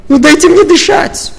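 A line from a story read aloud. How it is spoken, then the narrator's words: Shouted. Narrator (Russian): Прокричала мама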